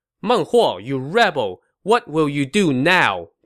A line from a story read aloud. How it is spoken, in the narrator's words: Zhuge Liang shouted to his foe